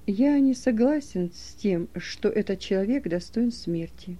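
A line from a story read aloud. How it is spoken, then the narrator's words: Soft remark. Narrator (Russian): мягко заметил Никодим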